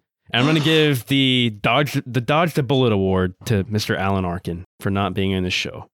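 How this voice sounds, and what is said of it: Usual voice. Nothing is said of it.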